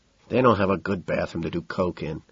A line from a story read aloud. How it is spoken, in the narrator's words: Then Patton returns, mumbling